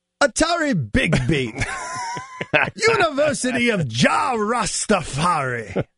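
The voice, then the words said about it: Poor impression, English-sounding rolled R's. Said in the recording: “impersonations ... I don't know what I just became an Englishman of some sort ... The impersonation is getting worse ... You're rolling your R's like old English.”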